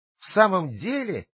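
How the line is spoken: Joyful exclamation. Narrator (Russian): воскликнул Пиноккио, прыгая от радости

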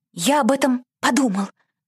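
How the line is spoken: Timid whisper. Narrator (Russian): робко прошептал кнопка

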